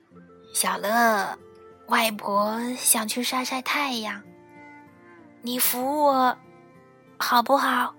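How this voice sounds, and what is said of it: Hoarse, weak old woman's voice. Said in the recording (Chinese): “她用沙哑的声音说”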